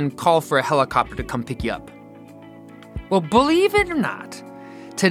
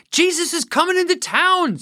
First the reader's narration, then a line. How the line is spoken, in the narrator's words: someone shouts